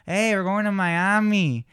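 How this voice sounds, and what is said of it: Put-on Miami accent. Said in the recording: “Miami definitely has an accent”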